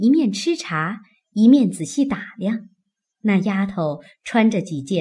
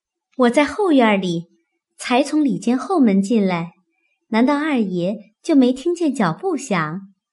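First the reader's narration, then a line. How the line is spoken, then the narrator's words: Laughing reply. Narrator (Chinese): 那丫头笑着回道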